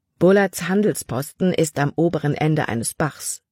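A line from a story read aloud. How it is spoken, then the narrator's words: Plain. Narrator (German): sagte Caleb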